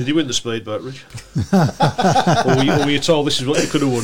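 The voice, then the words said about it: Imitates another person's voice. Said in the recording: “That was a great impression. Absolutely fantastic... It was absolutely awful.”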